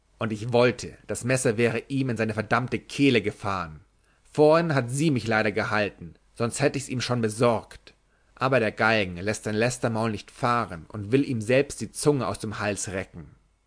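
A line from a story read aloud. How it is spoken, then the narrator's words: Shouted. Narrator (German): schrie er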